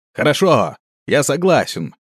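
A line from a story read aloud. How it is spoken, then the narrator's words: Shouted command. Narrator (Russian): крикнул командир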